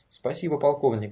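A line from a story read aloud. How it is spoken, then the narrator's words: Quick. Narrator (Russian): быстро сказал Конрад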